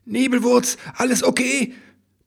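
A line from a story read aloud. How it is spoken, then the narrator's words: Worried shout. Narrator (German): brüllte eine besorgte Stimme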